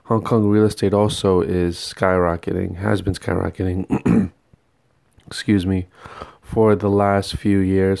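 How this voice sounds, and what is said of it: Voice strained from sore throat. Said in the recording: “my voice is kind of, I think I'm getting a sore throat today”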